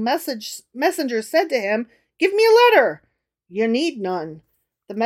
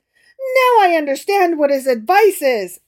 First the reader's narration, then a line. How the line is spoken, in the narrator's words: exclaimed the emperor